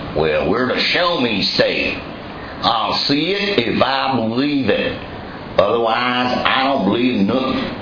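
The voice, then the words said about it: Put-on southern Missouri accent. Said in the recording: “that accent goes a little further south in Missouri, but it's for your effect”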